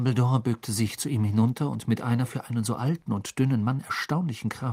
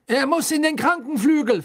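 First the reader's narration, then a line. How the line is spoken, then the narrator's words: Loud announcement. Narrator (German): verkündete Fudge laut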